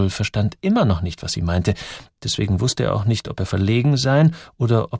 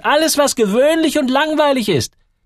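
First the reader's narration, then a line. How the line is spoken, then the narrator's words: Called. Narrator (German): rief Gertrud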